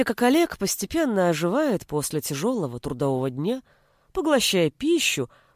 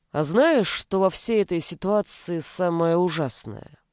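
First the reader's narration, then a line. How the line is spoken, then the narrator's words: Sudden strange voice. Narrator (Russian): Олег вдруг произнес странным голосом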